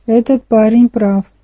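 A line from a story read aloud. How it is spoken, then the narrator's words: Grumbling. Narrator (Russian): пробурчал Ист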